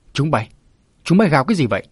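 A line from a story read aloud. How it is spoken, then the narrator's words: Puzzled shout. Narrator (Vietnamese): lấy làm lạ quát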